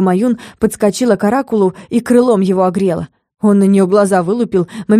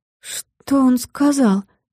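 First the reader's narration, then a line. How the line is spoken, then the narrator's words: Trembling, faltering voice. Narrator (Russian): Пролепетала дрожащим голосом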